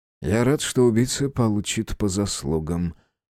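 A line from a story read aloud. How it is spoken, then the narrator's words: Quiet. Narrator (Russian): тихо произнес Оскар Финч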